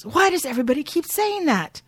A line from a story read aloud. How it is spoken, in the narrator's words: Cam snaps